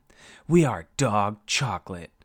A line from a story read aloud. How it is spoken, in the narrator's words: Alex screamed it, his voice cracking slightly